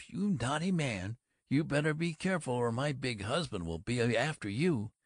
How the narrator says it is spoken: That laugh, that horrible brassy laugh, the way she yaps

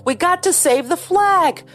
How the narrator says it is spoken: Joey hollered

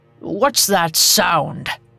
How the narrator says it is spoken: grumbled

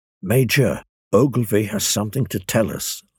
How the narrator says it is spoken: I quietly submitted

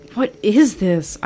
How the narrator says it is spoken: exclaimed

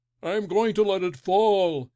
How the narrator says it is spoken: he shouted

